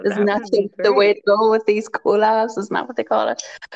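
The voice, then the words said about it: Irish accent, Tyrone brogue. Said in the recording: “you have the most amazing. It's not an accent, right? Is it a brogue? ... there's like the Irish accent, and then what they would say is that I have a Tyrone brogue”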